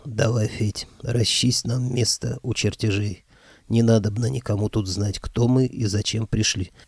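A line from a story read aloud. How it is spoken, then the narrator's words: Quiet creaky voice. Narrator (Russian): Ангел Кощей тихо проскрипел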